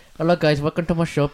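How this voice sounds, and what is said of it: Put-on shopkeeper accent. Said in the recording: “I full on went on an accent.”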